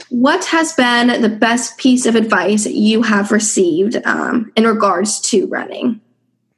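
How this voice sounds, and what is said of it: Voice sounds a bit off, sick. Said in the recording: “if I sound a bit off, I actually do have a cold ... my voice is a little off”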